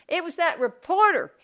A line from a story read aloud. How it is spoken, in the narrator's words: yelled